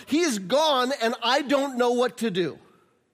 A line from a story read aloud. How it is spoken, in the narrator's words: she just yells out